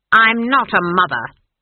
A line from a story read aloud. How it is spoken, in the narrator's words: snapped Granny